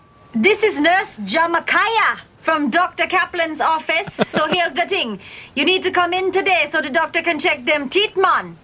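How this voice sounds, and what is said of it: Put-on Jamaican accent. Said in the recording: “doing the Jamaican accent”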